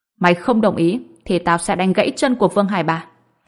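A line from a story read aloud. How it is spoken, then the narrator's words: Cold. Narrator (Vietnamese): Ông Phi lạnh lùng nói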